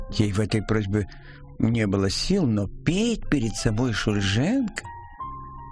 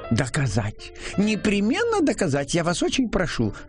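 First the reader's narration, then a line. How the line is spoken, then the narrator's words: Commanding exclamation. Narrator (Russian): Больше приказывая, чем прося, воскликнула Клавдия Ивановна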